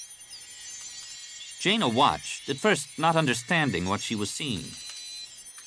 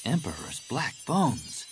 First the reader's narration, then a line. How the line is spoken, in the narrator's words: Jaina breathed